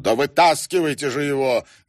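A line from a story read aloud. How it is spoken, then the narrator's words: Barking shout. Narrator (Russian): гаркнул Шнайдер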